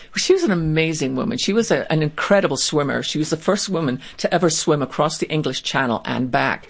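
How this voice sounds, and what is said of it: Speaks with a noticeable accent. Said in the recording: “you have that great accent”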